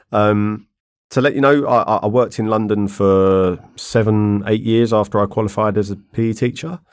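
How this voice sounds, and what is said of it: London accent. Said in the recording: “as you can probably tell by my accent, I grew up in London”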